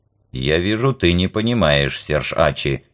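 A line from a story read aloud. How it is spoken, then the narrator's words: Stern. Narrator (Russian): строго сказал Вок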